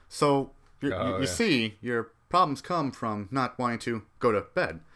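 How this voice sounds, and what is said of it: Christopher Walken impression. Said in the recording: “I love you, but never do Christopher Walken.”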